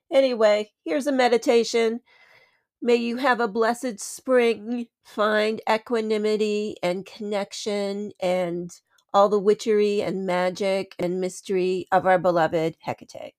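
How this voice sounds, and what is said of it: Slightly congested, sick-sounding voice. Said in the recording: “I've got a little bit of a cold situation.”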